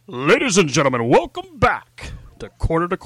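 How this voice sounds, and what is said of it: Deep, high-energy announcer voice. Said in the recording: “the high energy open ... Now you don't sound so, wimpy. That deep voice.”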